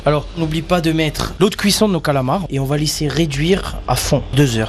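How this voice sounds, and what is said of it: Corsican French accent. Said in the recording (French): “avec ce bel accent corse”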